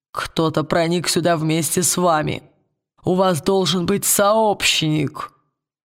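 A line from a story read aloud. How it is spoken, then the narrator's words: Creaky voice. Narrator (Russian): проскрипел он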